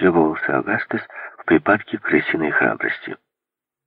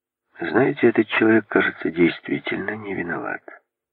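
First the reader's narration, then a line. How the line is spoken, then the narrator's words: Soft. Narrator (Russian): сказал он мягко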